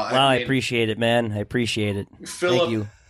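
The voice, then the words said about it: Kirk Cousins impression. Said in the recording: “does a Kirk impersonation.”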